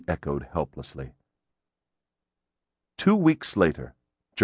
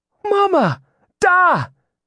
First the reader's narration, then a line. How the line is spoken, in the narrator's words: Gillian exclaimed